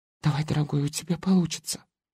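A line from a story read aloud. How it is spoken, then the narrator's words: Hopeful whisper. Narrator (Russian): Катя смотрела на меня с надеждой, она шепнула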